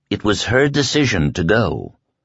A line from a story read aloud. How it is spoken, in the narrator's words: Glenn said gently